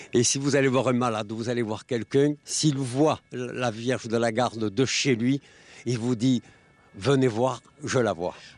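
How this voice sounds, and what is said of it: Strong Marseille French accent. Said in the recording (French): “cet extraordinaire accent marseillais”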